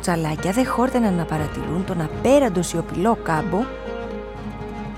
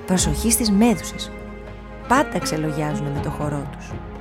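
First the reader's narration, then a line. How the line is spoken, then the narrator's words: Hurried murmur. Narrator (Greek): μουρμούρισε μια μουρμούρα προσπερνώντας βιαστικά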